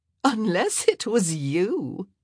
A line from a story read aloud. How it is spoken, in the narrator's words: Kate laughed